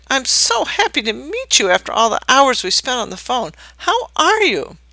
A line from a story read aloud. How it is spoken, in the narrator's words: shrieked in feigned delight